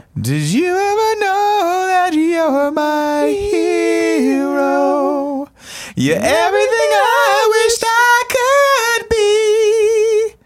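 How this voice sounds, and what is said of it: Singing in falsetto. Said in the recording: “deceptively good falsetto voice. ... That is a great falsetto.”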